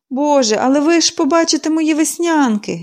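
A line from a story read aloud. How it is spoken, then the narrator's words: Sighing. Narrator (Ukrainian): зітхнула вона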